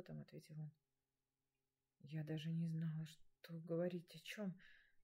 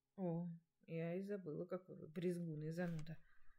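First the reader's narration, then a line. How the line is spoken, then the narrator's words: Trembling, holding back tears. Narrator (Russian): Чуть дрожащим голосом произнесла я, сдерживая слезы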